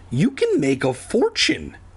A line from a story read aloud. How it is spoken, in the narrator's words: Andy exclaimed